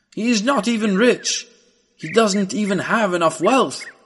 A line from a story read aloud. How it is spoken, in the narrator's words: shouted another